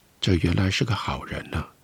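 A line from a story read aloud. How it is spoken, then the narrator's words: Sighing, added. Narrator (Chinese): 他叹了一口气，加了一句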